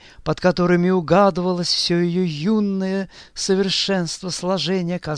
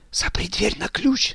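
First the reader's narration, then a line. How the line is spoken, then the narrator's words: Whispered. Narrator (Russian): шептала Соня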